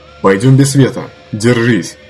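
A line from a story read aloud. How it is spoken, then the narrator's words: Shout out window. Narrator (Russian): крикнул он в окно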